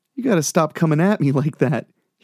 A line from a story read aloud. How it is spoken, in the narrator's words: sighed